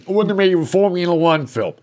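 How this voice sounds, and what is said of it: Sylvester Stallone impression. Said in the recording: “That's my Sylvester Stallone impression. ... It didn't sound like that.”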